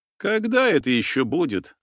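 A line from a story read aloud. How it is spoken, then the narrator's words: Sighed. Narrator (Russian): вздохнул Гена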